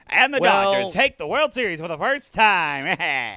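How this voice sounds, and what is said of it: Sports announcer voice. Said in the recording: “my announcer voice.”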